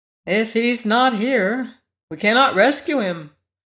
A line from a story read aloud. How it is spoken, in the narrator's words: agreed the Scarecrow sadly